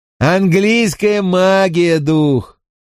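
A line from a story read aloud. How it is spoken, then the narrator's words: Shout. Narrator (Russian): крикнул Винкулюс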